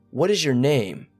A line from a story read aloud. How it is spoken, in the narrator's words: my friend Sarah asked in a deep and serious tone